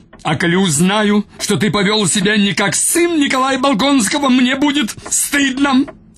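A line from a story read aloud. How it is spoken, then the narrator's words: Shrieked. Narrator (Russian): Взвизгнул он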